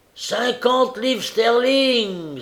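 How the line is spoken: Old man exclaiming. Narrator (French): s'écria un vieux monsieur

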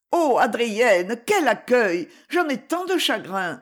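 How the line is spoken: Exclaiming. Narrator (French): s'écria-t-elle

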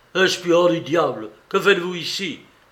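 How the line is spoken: Exclaiming. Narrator (French): s'écria-t-il

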